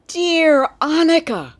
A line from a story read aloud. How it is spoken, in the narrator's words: cried Nico